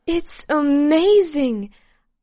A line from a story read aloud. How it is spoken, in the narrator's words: I exclaimed